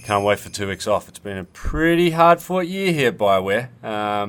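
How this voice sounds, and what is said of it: Australian accent. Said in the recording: “you may be able to tell by ... accent, he's not a local Canadian guy ... you Australian fellow, you”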